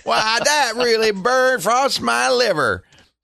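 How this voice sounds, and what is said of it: Imitates another person's voice. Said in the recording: “my Bubba imitation ... Oh, that's very good”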